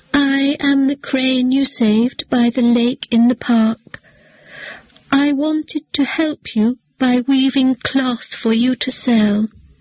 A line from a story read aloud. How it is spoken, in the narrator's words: said in a weak voice